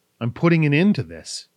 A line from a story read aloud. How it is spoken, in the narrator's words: Kai replied